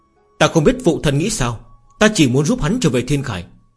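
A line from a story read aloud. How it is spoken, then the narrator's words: Cold. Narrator (Vietnamese): Diệp Nhật Y lạnh lùng nói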